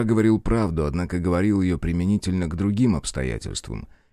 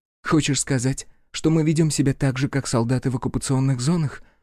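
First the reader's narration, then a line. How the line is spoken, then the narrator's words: Breathed out. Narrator (Russian): выдохнула Амин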